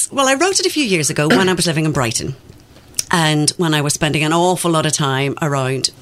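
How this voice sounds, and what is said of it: Northern Irish accent. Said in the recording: “as you can tell from the accent, I didn't grow up in these parts and I grew up a very strict Catholic in Northern Ireland”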